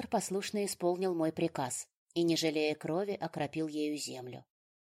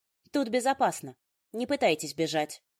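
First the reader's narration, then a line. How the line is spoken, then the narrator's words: Stern order. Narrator (Russian): наказала строго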